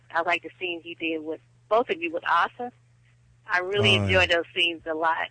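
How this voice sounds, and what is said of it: Slight Texan accent. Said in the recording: “I'm from Texas ... I guess my accent sounds kind of, I've got a little accent”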